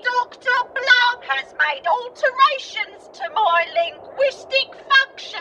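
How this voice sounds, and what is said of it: Cockney accent. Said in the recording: “Is there something wrong with her voice? ... why do you sound Cockney?”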